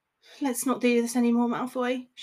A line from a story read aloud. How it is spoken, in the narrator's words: she sighed